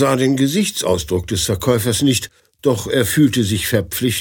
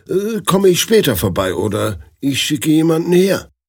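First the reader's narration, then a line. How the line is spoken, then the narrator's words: Stammering. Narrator (German): stammelte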